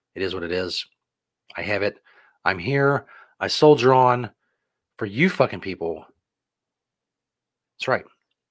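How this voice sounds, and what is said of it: Slightly off, sick-sounding voice. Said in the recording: “My voice sounds a little bit off tonight ... I am on day 5 of the flu”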